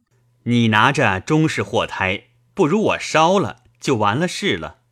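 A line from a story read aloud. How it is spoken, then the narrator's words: Laughing. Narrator (Chinese): 笑道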